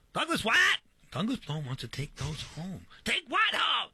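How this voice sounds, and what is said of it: Impression of his mother. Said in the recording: “Very, very flattering impersonation of your mom. ... I've been told it's right spot on”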